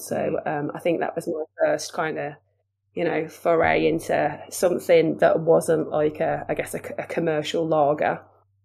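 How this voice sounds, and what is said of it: Wolverhampton (Black Country) accent. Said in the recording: “good old Wolverhampton ... my accent helped a lot ... you're never going to get a job in marketing or PR with that accent”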